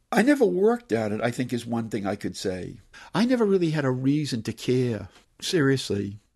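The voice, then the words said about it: Medford working-class Boston accent. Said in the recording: “I never really did lose my Medford accent, working class accent.”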